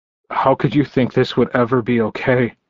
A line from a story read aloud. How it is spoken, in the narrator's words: he choked out